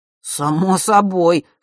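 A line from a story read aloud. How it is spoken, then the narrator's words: Boy's snort. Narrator (Russian): хмыкнул мальчик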